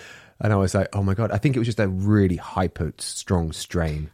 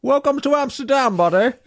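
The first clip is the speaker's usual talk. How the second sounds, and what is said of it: Put-on Dutch accent. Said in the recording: “my Amsterdam accent, my Dutch accent.”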